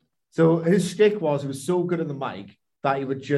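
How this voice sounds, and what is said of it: Usual voice. Nothing is said of it.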